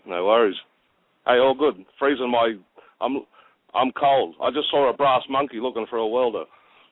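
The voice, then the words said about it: Australian accent. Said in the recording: “I'm sure the accent will give it away. ... in Australia”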